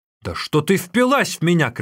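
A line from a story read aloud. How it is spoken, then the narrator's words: Shouting. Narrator (Russian): кричал Тан Нюэр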